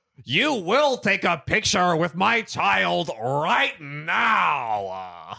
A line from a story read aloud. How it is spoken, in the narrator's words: Yelling